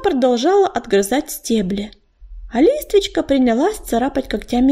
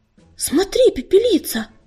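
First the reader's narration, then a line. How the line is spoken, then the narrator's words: Frightened call. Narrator (Russian): испуганно окликнула она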